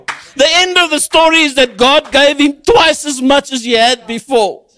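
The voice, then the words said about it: Shouting passionately. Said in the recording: “I'm sorry I'm shouting. I apologize if I'm offending you with shouting”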